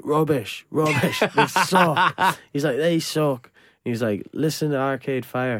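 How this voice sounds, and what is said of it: Poor put-on Irish accent. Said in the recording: “That was my awful Irish accent”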